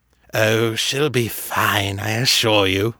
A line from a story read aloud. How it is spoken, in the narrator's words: Fisher drawled